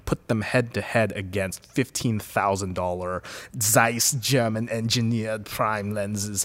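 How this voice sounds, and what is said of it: German-accented imitation of another voice. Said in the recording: “was an Arnold impression... That's kind of my Herzog.”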